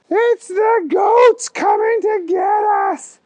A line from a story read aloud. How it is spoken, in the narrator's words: Stephen yelled